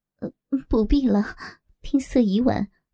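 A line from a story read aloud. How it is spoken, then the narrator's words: Trembling, feigned fear. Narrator (Chinese): 黄蓉故作害怕，颤声道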